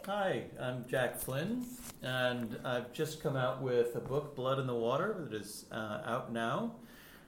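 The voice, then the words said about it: American accent, not British. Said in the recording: “You can probably tell from the accent, I'm not from the UK. ... I actually live in Boston.”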